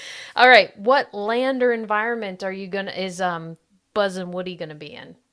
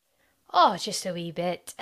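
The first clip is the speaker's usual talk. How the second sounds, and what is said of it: Put-on Scottish accent, like Merida. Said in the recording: “you were drawn to the accents”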